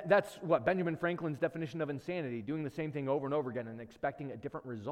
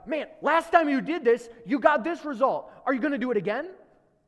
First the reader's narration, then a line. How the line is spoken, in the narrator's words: wisdom is there shouting